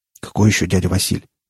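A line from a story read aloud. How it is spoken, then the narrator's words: Mutter. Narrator (Russian): пробормотал Рамир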